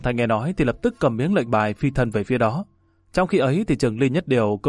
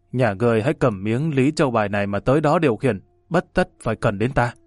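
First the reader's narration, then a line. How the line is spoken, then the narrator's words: Harsh, stressed reply. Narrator (Vietnamese): Trường Ly Nhất Điều gằn giọng trả lời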